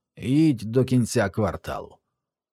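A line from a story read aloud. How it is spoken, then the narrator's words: Hoarse voice. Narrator (Ukrainian): батько сказав хрипким голосом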